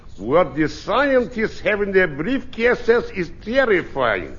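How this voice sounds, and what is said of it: Accented impression of Nikita Khrushchev. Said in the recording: “Nikita Khrushchev. ... The accent was pretty terrifying, too.”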